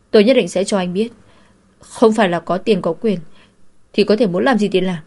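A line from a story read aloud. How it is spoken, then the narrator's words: Loud voice. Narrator (Vietnamese): lớn tiếng nói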